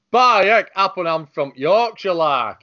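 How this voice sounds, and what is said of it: Stereotyped Yorkshire accent. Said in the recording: “the Sheffield accent is not ... It's not that.”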